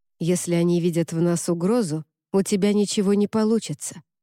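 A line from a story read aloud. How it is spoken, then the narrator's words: Plain. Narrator (Russian): ответил Уорд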